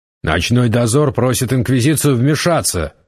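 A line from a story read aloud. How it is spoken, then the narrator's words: Barking. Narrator (Russian): рявкнул Гессер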